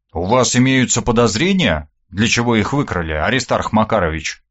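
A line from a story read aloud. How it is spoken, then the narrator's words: Plain. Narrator (Russian): спросил я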